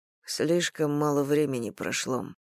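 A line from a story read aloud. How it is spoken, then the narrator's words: Sad reminder to himself. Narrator (Russian): печально напомнил он себе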